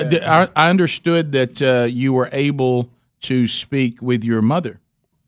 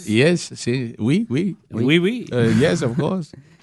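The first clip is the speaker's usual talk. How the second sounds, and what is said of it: Attempted French accent. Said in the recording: “I'm just trying to learn the accent.”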